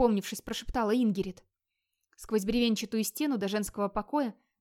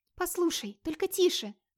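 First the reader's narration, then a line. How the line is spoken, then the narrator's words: Pleading. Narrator (Russian): взмолилась Катла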